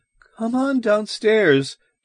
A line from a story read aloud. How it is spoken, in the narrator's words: Janet called in a wavering voice